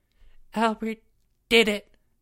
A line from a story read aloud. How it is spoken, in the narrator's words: Jeffrey said, his voice shaking